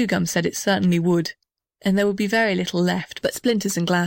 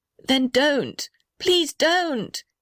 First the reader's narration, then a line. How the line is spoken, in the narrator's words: yelled the little red house